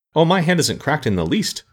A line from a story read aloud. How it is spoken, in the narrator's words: declared more cheerfully